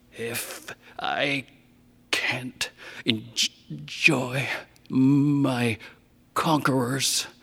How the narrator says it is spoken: he rasped

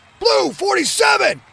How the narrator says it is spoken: Quentin shouted

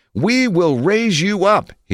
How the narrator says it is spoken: yelled again

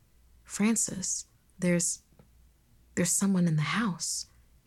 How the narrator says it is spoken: he whispered

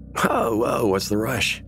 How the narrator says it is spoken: He laughed, hungover

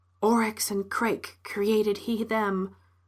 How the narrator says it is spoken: whispered the young woman

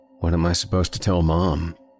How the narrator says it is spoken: he asked

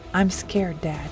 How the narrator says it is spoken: she said, her voice trembling

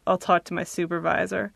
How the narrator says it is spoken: Dryly, Patrice says

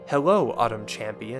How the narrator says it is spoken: it said

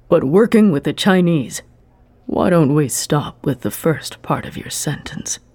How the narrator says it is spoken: Ueda suggested smoothly

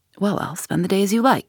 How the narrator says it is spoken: said Holmes, patting him cheerfully

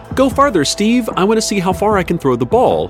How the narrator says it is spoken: She shouts

